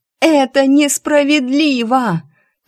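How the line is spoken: Screaming. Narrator (Russian): я снова закричала

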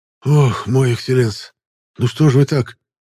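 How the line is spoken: Suddenly hoarse coachman. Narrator (Russian): Вмиг осипшим голосом поделился еще не отъехавший извозчик

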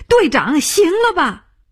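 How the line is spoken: Shout. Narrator (Chinese): 他叫起来

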